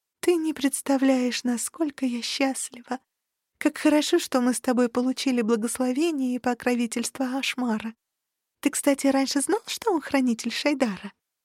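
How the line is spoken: Purring. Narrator (Russian): промурлыкала

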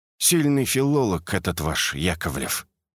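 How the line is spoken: Muttered. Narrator (Russian): пробормотал Акимов

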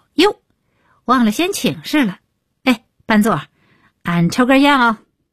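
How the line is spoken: Loud, prompt. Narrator (Chinese): 李伟立刻高声道

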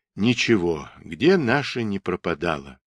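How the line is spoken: Quiet mumble. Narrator (Russian): тихо пробормотал Игорь Васильевич

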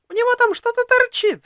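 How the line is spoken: Sudden nearby squeal. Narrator (Russian): вдруг взвизгнула неподалеку Лолька

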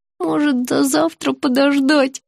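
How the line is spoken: Groaning. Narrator (Russian): простонала я

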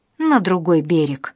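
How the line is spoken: Cheerful old man's reply. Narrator (Russian): бодро отозвался старик

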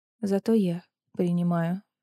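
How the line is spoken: Dull, lifeless voice. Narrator (Russian): глухим мертвым голосом ответила она

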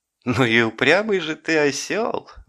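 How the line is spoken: Laughing. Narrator (Russian): засмеялся Горбун

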